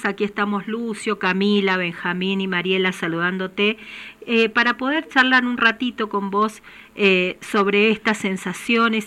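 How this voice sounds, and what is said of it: Regional Argentine lilting accent. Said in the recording (Spanish): “escucho esa tonada tan hermosa”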